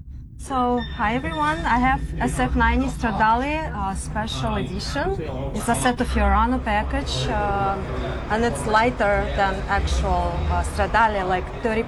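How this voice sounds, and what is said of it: Foreign accent, not US Southern. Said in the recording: “you've got an accent too ... doesn't sound like Alabama or Georgia”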